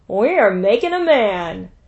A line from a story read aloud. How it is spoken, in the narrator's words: Silili, a Harimatu fresh from her bed of night, laughed and said